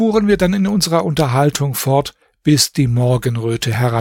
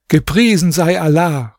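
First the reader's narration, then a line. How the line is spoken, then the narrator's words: Calling out. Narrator (German): rief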